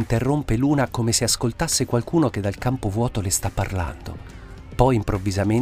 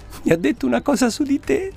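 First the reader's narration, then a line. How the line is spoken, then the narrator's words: Said while laughing. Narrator (Italian): Luna, sempre ridendo, gli dice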